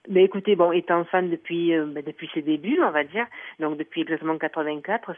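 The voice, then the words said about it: Slight Italian accent. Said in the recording (French): “Vous avez un petit accent, vous êtes un peu italienne aussi?”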